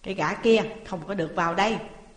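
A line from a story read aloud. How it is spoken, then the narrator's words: Loud bark. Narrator (Vietnamese): Chủ quán quát to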